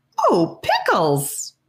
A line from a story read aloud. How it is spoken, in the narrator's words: A high-pitched, enthusiastic squeak